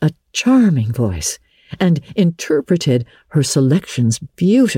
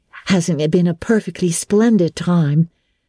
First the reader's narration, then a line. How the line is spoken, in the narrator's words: sighed Jane